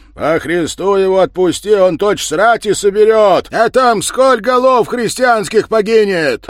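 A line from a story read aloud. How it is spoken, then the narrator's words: Merchant yelling. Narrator (Russian): орал с воза купец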